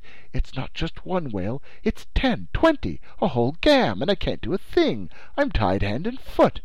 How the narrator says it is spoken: he exclaimed

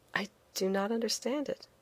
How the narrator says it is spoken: I said quietly, too proud to show my ignorance

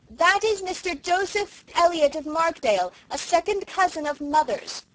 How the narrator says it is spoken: Cecily, shouting

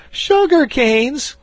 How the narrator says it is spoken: cried they all

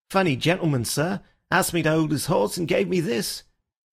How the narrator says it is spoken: he added in an injured voice

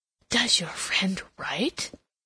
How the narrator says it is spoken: inquired in a very audible whisper

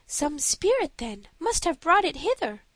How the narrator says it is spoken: cried

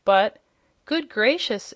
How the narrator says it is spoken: exclaimed the surprised Jimfred

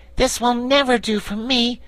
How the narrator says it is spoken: exclaimed the Patchwork Girl

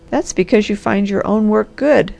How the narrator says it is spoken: laughed the Harvester

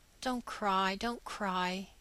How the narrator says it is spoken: he whispered

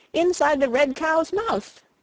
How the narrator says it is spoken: he shouted

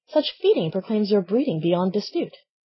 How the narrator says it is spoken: The country cousin exclaimed

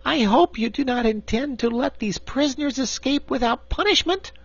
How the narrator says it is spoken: exclaimed Corporal Waddle in protest

